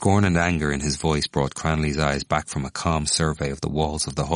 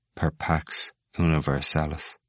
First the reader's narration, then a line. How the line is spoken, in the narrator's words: said blandly and bitterly